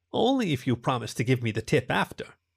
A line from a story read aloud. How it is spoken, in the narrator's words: the bunny responded with an aqua chuckle